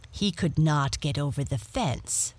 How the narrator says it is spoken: Topaz says

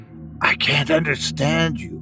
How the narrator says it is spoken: I whispered in horror

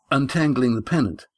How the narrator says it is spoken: he gasped

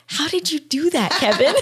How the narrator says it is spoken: He whispered

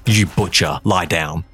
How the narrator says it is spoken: whispered in his ear

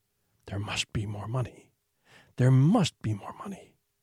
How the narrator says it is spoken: a voice would start whispering

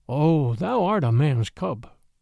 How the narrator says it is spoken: said the Black Panther, very tenderly

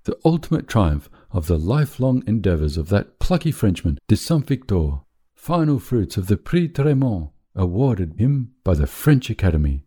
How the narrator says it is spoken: exclaimed

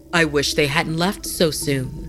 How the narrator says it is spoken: Haru said

